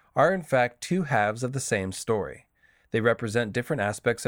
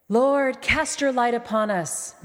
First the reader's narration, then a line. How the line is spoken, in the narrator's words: Melisandre called out